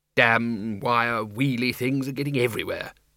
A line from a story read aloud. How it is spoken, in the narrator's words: he muttered